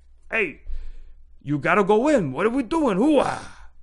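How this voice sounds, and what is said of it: Imitates another person's voice, badly. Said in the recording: “That was a really bad Al Pacino impression.”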